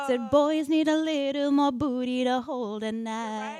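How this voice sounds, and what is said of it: Sung imitation of another person's voice. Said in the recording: “That was very good. ... That's my Megan Trainor impression.”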